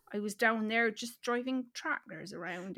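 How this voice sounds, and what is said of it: Put-on accent slipping toward northern. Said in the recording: “You're losing your accent a little bit... You're having to really concentrate on your accent... you've gone northern”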